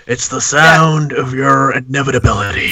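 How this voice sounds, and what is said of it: Evil British accent. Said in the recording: “I think it's an evil British accent.”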